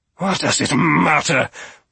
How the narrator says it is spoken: Lord Toby snarled

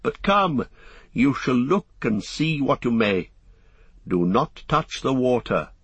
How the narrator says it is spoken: said the lady with a gentle laugh

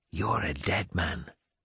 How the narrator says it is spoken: I smiled, whispered in his ear

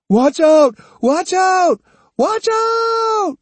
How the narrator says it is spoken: he screamed repeatedly

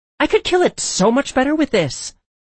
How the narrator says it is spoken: she yelled

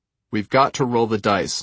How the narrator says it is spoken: Norick said

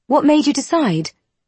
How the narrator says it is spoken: William sighs

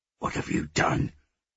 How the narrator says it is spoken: he hissed

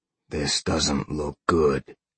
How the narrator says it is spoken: Sean grunted

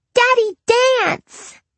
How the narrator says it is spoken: she ran toward him, chirping

